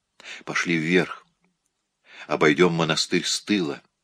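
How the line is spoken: Barely audible order. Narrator (Russian): еле слышно распорядилась Сара

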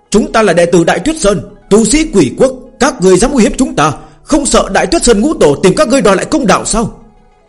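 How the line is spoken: Terrified loud shout. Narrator (Vietnamese): Các đệ tử Vạn La Viện kinh hoàng, cũng có người hét lớn

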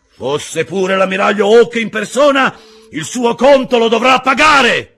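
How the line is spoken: Shouting. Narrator (Italian): gridò Silver

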